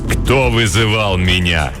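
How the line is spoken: Menacing question. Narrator (Russian): грозно спросило темное существо

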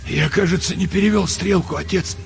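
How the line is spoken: Hoarse. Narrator (Russian): сказал он сипло

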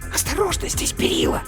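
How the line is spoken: Hiss. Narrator (Russian): прошипела матрешка

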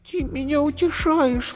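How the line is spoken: Sobbing. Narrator (Russian): всхлипнула Зайка

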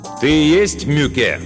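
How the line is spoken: Loud question. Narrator (Russian): громко спросил Мартин

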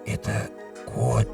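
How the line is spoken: Whisper. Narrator (Russian): Домовой прошептал вместо спящей жены

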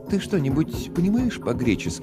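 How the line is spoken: Fairly calm question. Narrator (Russian): достаточно спокойно спросила Мадж

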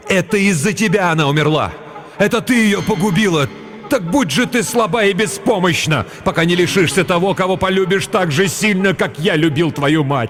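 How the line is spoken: Loud grief-stricken shout. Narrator (Russian): Отец Кирен так сильно любил свою жену, что когда ему сообщили печальную весть и показали дочку, он громко закричал

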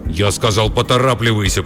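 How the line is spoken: Growling. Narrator (Russian): прорычал Рабба

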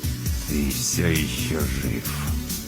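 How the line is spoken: Spiteful words through teeth. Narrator (Russian): Четвертый, напротив, нахмурил брови и злобно процедил

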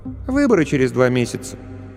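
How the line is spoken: Casual, offhand. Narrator (Russian): Дочка хмыкнула и сказала как бы просто так

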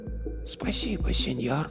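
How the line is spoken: Whisper. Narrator (Russian): прошептала она

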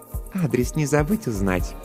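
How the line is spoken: Purring. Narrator (Russian): промурлыкала Жанна

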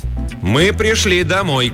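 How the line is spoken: Distant shout, female coyote. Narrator (Russian): крикнула с вершины холма койотиха

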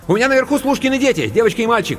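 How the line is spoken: Rapid patter. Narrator (Russian): протараторила Анка

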